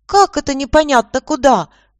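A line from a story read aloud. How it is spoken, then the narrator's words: Yelling. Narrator (Russian): завопила староста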